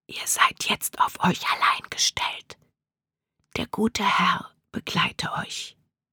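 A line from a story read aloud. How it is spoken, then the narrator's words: Conductor whispering again. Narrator (German): Erneut flüsterte der Schaffner der Untergrundbahn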